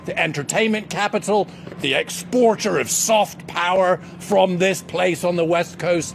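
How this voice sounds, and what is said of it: Scottish accent. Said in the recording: “my weird accent. Foreign-born ... Scottish born”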